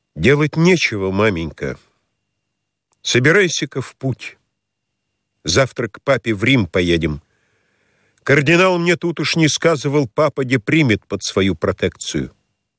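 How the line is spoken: Dull muffled voice. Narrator (Russian): Царевич произнес глухо

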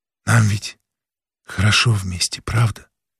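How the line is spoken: Whispered. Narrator (Russian): шептала, проснувшись первой, Ханна

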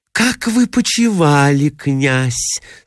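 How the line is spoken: Honeyed voice. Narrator (Russian): спросила она медоточивым голосом

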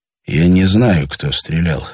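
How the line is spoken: Quiet. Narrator (Russian): сказал тихо Андрей Витасу

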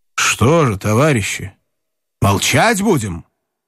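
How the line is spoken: Loud. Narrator (Russian): Один из них, подполковник Мельшин, громко сказал

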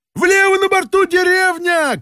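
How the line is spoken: Shout. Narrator (Russian): крикнул Балаганов

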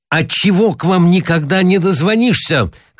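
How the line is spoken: Shouting. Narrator (Russian): кричал

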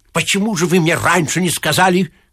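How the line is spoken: Shouting man. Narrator (Russian): кричал член комиссии

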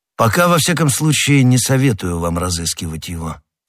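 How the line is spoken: Plain. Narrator (Russian): сказал Д'Атревиль

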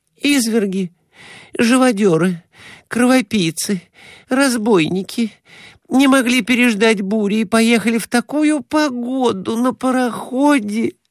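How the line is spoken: Moaning. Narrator (Russian): стонала Глафира Семеновна

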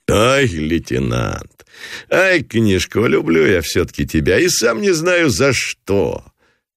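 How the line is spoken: Forced loud laughter. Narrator (Russian): Нарочито захохотал Гранатуров

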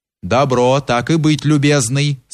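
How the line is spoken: Plain. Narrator (Russian): сказал приказчик Кирше

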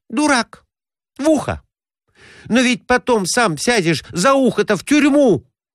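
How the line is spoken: Exclamation. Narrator (Russian): воскликнула она

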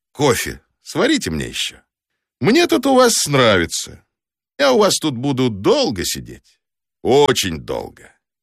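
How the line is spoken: Cheerful, then unhurried. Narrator (Russian): ответил я ей весело, добавил не спеша

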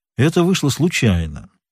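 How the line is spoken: Calm answer. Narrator (Russian): спокойно ответил Пинкертон

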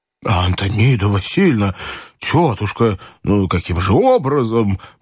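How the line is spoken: Miserable man muttering. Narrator (Russian): пробормотал несчастный генерал

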